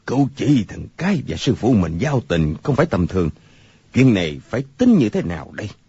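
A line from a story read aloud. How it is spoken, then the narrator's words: Pensive mutter to self. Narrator (Vietnamese): Người câu cá trầm ngâm, lẩm bẩm một mình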